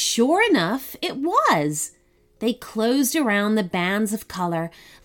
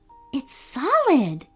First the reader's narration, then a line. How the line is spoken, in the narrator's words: she said in a hushed voice